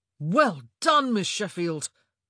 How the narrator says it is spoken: Colin exclaimed

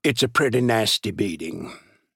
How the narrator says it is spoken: he said gravely

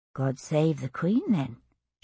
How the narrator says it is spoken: she murmured, intent on her work

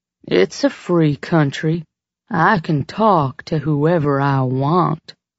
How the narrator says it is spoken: Trigger drawled

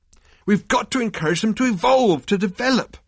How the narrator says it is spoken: Arthur burst out angrily

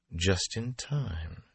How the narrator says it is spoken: she murmured

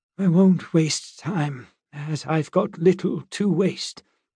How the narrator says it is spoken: she said, her voice shaking slightly

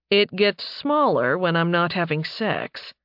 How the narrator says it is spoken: he said dryly

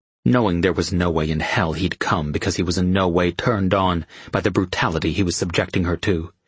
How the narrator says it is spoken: he said in a harsh voice

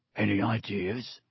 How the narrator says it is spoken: muttered Harry

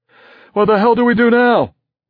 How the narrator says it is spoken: Bender yelled at me as we ran

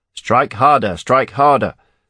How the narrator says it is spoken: shouted the Croden guard down the line

